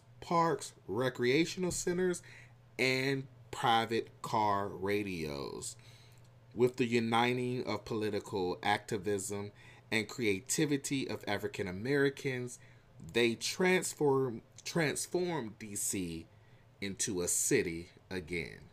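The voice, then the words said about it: Southern country twang accent. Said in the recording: “my country accent, my country twangs coming out”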